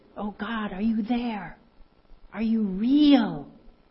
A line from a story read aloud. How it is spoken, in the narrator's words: He fervently whispered